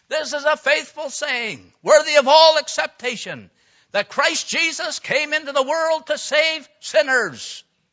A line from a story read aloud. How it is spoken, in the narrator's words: he shouted out with all his might